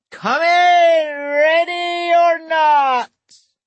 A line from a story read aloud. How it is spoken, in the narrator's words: he bellows from the doorstep